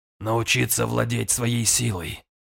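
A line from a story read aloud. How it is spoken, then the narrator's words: Hoarse. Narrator (Russian): хрипло промолвил Гунфридр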